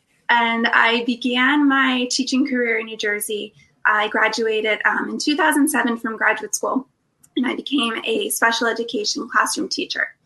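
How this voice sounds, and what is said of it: Slight New Jersey accent. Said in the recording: “I'm from New Jersey. So you might hear, I hope, a little bit of my accent still.”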